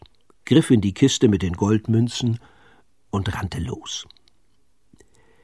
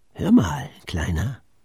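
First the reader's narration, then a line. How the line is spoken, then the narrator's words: Murmured. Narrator (German): raunte sie Pitt zu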